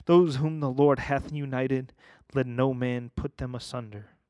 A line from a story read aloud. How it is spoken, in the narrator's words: exclaimed